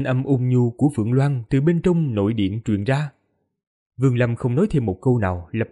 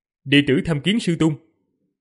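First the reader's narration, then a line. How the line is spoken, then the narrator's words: Raised voice. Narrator (Vietnamese): cất cao giọng, nói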